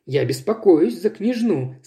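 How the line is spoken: Plain. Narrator (Russian): сказала Джейн

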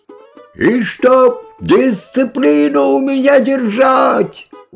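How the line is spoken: Shouting after. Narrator (Russian): уже вдогонку кричал председатель

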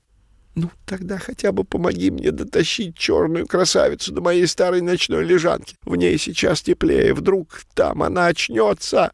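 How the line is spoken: Desperate hoarse rasp. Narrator (Russian): С отчаянием в голосе прохрипел Пушок

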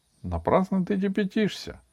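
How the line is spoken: Calm. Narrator (Russian): спокойно ответила Аделаида

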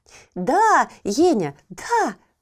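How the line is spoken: Exclaimed. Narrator (Russian): воскликнула Еля

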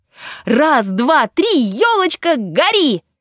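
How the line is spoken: Louder repeated shout. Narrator (Russian): Таня крикнула еще раз, погромче

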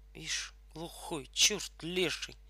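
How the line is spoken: Group muttering under breath. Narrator (Russian): пробормотали все в полголоса

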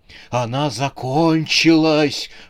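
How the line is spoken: Sweaty man growling. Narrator (Russian): прорычал потлатый человек

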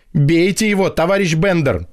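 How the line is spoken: Shouting, catching breath. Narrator (Russian): кричал с земли отдышавшийся Полит Матвеевич

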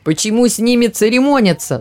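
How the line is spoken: Shouting. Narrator (Russian): закричал матрос

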